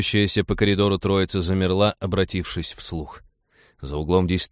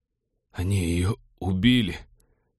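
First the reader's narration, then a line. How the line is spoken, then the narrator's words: Groan. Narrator (Russian): простонал он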